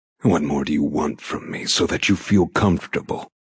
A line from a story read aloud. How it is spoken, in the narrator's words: He rasps, the accusation clear